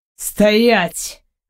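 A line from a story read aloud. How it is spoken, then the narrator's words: Sharp sudden command. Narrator (Russian): Вдруг резким тоном приказывает мне аристократ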